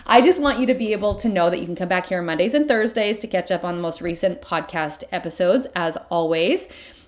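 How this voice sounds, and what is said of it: Excited, fired-up energetic voice. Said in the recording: “if you are fired up like I am, can you hear it in my voice?”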